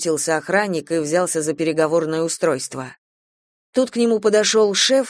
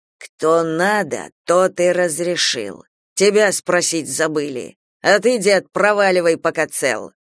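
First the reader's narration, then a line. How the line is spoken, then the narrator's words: Hissed through teeth. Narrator (Russian): Колян прошипел сквозь зубы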